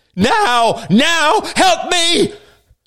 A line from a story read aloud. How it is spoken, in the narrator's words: cried the bearded man